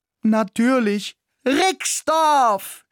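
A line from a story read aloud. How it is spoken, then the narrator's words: Enthusiastic shout. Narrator (German): schrie begeistert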